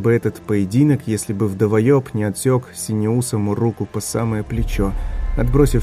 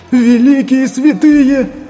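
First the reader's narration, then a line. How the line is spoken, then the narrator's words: Shrill squeal. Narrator (Russian): взвизгнул книжник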